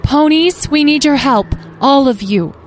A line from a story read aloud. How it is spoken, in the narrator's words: Starfire called out